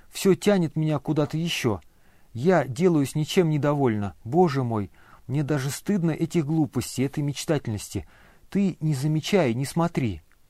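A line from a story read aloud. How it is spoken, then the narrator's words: Pleading voice. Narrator (Russian): прибавила она умоляющим голосом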